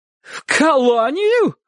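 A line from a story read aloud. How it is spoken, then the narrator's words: Crying out. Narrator (Russian): вскрикнула тетушка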